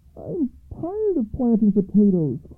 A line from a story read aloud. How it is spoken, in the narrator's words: cried her son